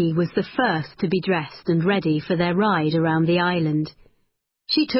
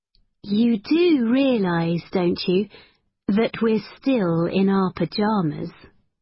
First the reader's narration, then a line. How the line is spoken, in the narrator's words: Becky paused and then said, very calmly